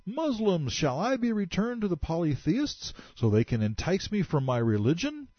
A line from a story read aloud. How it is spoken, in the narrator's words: Jandal began screaming at the top of his voice